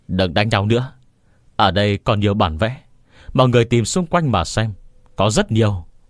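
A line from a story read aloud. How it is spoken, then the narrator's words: Loud uncontrolled shout. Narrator (Vietnamese): một người không kiềm chế được hét lớn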